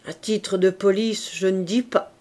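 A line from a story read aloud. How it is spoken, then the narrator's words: Doctor murmuring. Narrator (French): murmura le docteur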